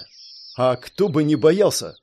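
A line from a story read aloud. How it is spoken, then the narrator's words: Snorting. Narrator (Russian): фыркнул Элмерик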